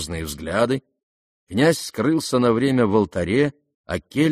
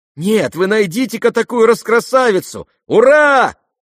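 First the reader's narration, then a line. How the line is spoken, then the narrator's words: Crowd shouting. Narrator (Russian): кричали ближайшие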